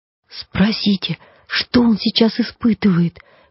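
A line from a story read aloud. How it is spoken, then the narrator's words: Excited whisper. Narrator (Russian): Возбужденно шепнула львица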